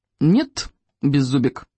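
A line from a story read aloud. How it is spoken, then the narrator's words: Very firm voice. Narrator (Russian): самым твердым голосом заявил Икинг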